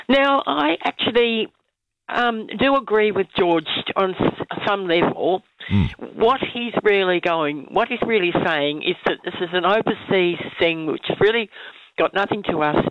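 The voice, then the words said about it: Croaky voice from a cold. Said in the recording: “I've got a bit of a cold, so my voice is a bit croaky.”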